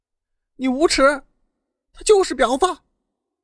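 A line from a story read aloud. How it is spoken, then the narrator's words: Furious tearful frantic screaming. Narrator (Chinese): 大妹气得浑身颤抖，泪流满面，发疯似的使劲的喊着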